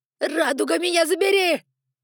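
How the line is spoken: Yelling. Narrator (Russian): заорал Коп-Ор

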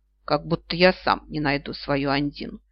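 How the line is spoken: Scoffing snort. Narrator (Russian): хмыкнул Огненный

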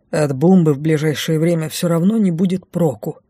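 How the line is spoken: Grumbled. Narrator (Russian): буркнул лорд Лайс

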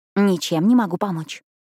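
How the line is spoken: Smirking whisper. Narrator (Russian): с ухмылкой прошептала та

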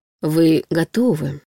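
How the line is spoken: Smooth insinuating voice. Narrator (Russian): произнес он вкрадчиво

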